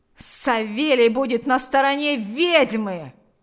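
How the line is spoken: Angry yell. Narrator (Russian): злобно завопил Ахрим

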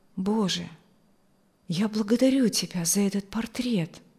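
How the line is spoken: Thoughtful mutter. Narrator (Russian): бормотал он задумчиво

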